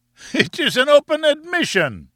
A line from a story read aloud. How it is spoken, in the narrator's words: he cried